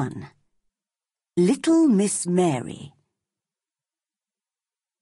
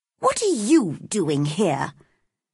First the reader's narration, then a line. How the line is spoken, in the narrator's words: she asked crossly